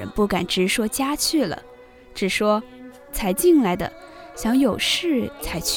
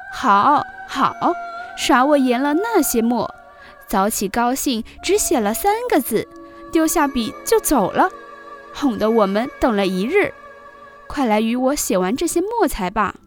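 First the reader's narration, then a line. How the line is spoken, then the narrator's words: Laughing. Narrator (Chinese): 晴雯 笑说道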